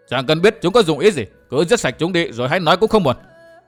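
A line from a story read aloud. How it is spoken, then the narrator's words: Loud, raised voice. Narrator (Vietnamese): Phong Lôi Thần không hiểu, gã vẫn cao giọng nói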